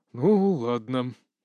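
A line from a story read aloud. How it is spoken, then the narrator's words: Heavy sigh, king. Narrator (Russian): тяжело вздохнул царь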